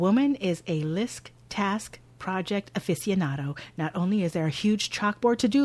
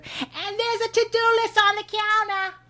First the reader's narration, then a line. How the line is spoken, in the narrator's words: Mom hollers over her shoulder